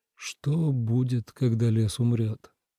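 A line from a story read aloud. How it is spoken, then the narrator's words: Quiet question. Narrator (Russian): тихо спросил Ленард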